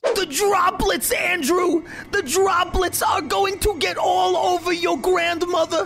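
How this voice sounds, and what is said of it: Imitates another person's voice. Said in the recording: “You think Tim does a better Fauci than me? ... Yeah, he does.”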